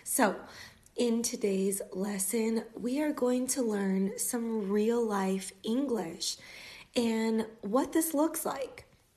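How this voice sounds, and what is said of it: American English accent. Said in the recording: “from the United States ... with an American accent”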